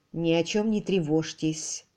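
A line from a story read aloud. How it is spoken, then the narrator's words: Said quietly. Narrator (Russian): тихо сказал Кэрри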